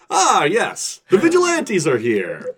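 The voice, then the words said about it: Over-the-top Adam Nuclear character voice. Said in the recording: “do the Adam nuclear voice because it's just so much... Adam nuclear is so much”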